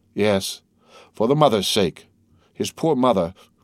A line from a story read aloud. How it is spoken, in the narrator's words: cried the major